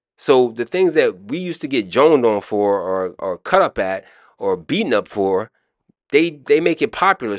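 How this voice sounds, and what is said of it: Maryland accent. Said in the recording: “I'm showing my Maryland accent.”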